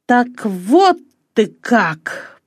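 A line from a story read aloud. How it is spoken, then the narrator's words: Through gritted teeth. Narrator (Russian): проговорил он сквозь зубы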